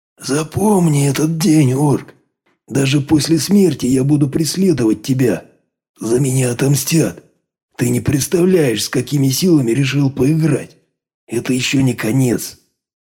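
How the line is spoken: Hoarse rasp. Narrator (Russian): прохрипел он

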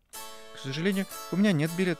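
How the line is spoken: Frightened. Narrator (Russian): испуганно сказала Алиса

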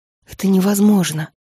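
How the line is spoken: Breathed out. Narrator (Russian): выдохнула Фейт

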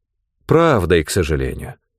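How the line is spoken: Gloomy announcement. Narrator (Russian): мрачно объявила Мойра

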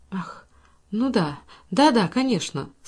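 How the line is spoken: Flustered mutter. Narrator (Russian): спохватившись, пробормотала Эйлин

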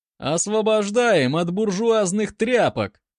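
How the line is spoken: Laughing. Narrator (Russian): засмеялся другой боец

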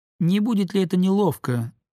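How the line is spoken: Thin little voice. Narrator (Russian): сказал Оперов своим тоненьким голоском

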